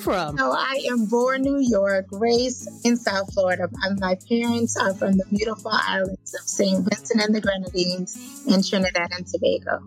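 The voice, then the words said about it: Speaks with a noticeable accent. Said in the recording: “you have that accent going on, you know, and I love accents.”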